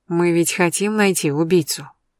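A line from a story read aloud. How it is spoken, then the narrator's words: Calm. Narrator (Russian): спокойно произнесла я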